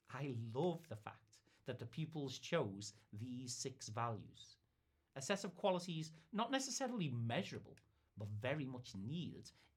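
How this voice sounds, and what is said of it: Soft, subtle Liverpool accent. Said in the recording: “my soft and subtle Liverpudlian twang”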